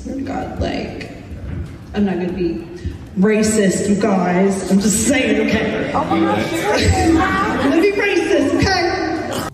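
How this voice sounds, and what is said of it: Drunk woman putting on an accent. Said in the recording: “I don't know what type of accent that is. ... I think I know what type of accent she's going for here. ... she's drunk”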